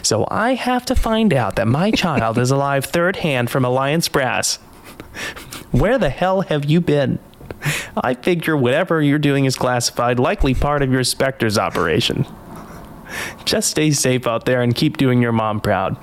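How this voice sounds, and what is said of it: Impression of Hannah Shepard. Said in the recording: “I can do a Hannah Shepherd impression, but I'll try”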